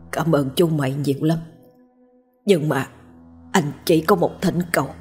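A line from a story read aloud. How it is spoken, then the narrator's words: Whisper. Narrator (Vietnamese): Hắn thì thào bảo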